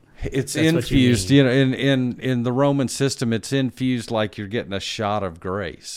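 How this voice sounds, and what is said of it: Noticeable accent. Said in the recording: “Your accent doesn't help that one either... making me sound funny”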